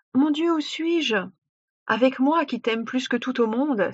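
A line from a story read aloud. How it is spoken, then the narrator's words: Prince's joyful exclamation. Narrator (French): s'écria le fils de roi plein de joie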